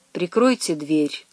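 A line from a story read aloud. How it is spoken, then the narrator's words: Quiet command. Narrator (Russian): Велел негромко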